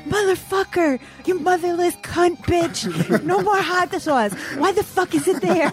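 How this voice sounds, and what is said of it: Impression of someone screaming curses. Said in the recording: “We couldn't hear Lewis screaming here ... do your impression. ... What did I sound like?”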